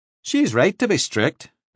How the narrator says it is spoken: Devlin said

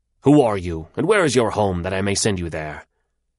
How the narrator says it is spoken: he said to her harshly

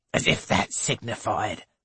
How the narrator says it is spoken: snorts Mrs

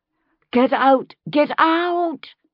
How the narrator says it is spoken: someone was bellowing, louder than the rest

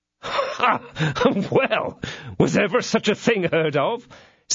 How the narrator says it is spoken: said D'Artagnan, bursting out into a laugh

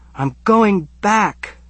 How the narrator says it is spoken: I yell

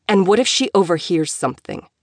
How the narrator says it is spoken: Elijah growled out

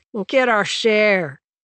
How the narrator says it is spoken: Mac said with a laugh

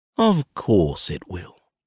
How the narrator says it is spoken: I drawl

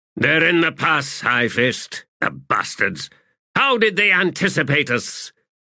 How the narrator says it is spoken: cursed, spat, and then said

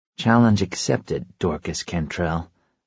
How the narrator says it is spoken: I murmur

